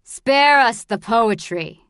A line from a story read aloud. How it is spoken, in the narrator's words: snapped the bald man